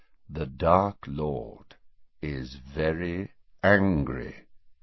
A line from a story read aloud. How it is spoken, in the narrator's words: repeated Snape quietly